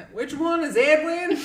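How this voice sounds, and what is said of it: Thick Southern accent. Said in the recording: “in like a thick Southern accent.”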